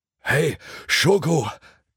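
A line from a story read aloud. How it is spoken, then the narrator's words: Panting. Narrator (German): keuchte sein Hundefreund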